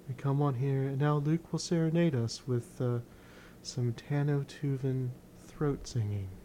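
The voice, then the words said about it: Calm public radio announcer voice. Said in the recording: “I'm going to use my NPR voice.”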